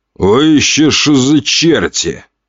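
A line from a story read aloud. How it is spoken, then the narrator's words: Gruff growl. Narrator (Russian): рыкнул лысый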